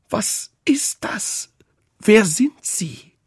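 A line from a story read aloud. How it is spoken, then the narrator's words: Strained pressed cry. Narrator (German): rief mit gepresster Stimme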